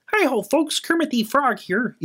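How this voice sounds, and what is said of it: Chirpy Kermit the Frog voice. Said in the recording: “it's chirpy... Chirpy's a good word... Very chirpy”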